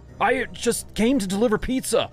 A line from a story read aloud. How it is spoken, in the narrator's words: I cried in alarm